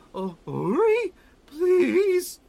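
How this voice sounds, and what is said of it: Broken voice shifting deep to high. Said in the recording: “in a very broken, deep to high voice”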